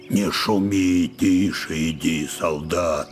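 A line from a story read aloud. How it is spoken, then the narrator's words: Angry whisper. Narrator (Russian): сердито, шепотом говорил он ему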